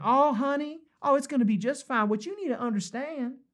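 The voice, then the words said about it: Put-on female Southern belle accent. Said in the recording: “some half-baked female Southern accent ... the reassuring voice of some, you know, Southern belle”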